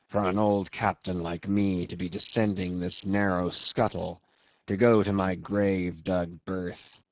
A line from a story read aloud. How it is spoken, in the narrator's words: he would mutter to himself